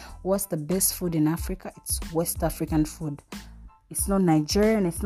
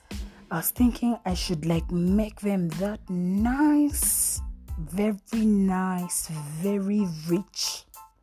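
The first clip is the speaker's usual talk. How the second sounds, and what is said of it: Put-on Nigerian accent. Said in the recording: “I'm talking like a Nigerian right now”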